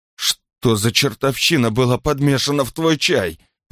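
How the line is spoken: Moaning. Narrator (Russian): простонала она

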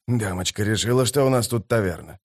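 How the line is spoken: Grumbling. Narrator (Russian): проворчал один из солдат

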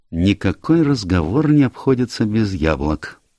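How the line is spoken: Sad remark. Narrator (Russian): печально заметил Пуаро

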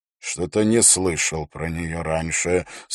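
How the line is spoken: Doubtful, through gritted teeth. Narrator (Russian): с сомнением в голосе процедил Холт

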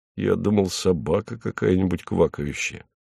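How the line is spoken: Muttered from under table. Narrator (Russian): Хлебоводов полез под стол, откуда пробормотал

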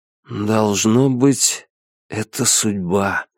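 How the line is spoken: Awed whisper. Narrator (Russian): прошептал Фэн Фань, больше других очарованный его грандиозностью

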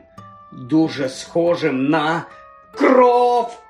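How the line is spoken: Shrieking in dead silence. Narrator (Ukrainian): верещав Ром у мертвій тиші

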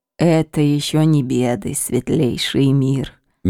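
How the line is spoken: Soft old woman's remark. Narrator (Russian): мягко заметила морщинистая старуха

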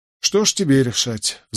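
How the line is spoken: Sigh. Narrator (Russian): вздохнул я

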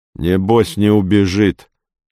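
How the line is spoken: Plain. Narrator (Russian): сказал один

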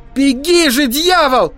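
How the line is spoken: Shout. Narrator (Russian): крикнул я

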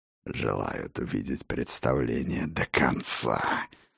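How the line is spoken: Angry hiss. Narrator (Russian): зло прошипел Хрофт

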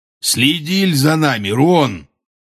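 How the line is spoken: Rude, gruff. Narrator (Russian): грубо сказал он

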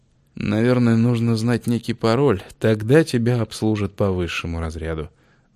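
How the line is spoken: Sigh. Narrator (Russian): вздохнул Августин

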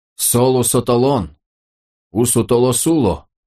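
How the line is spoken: Moaned. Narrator (Russian): простонал он

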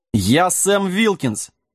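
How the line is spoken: Offended roaring dog. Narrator (Russian): обиженно взревел пес

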